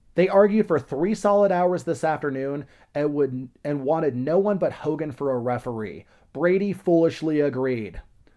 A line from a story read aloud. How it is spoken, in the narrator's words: who backed and had a lot of money bet on the Turk, shouted